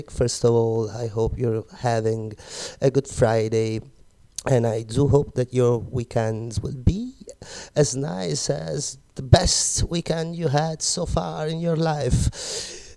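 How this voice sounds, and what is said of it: Slightly sick, congested-sounding voice. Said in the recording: “Pardon my voice, but unfortunately I got COVID ... A bit of cold.”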